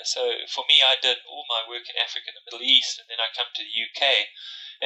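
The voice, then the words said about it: South African accent. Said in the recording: “You can hear from my accent, I'm from South Africa.”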